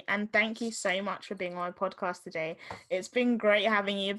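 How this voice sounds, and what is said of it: Southeast London English accent. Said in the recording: “I love your accent too ... I don't have the accent you do ... It's like Southeast exactly. London”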